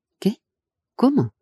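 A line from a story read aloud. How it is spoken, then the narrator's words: Stammered. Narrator (Spanish): balbucí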